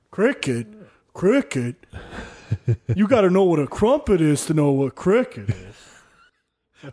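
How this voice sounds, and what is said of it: Impression of Raphael from Ninja Turtles. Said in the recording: “Was that your John Hamm impression? ... Well, that's Raphael. I'm talking Ninja Turtles.”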